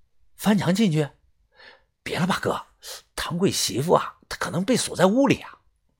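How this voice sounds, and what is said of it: Quiet, hushed speech. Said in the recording (Chinese): “小声的说”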